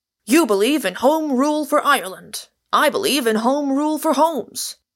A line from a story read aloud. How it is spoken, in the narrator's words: he cried eagerly to Michael